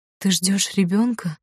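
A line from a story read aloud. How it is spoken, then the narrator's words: Bewildered whisper. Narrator (Russian): прошептала она растерянно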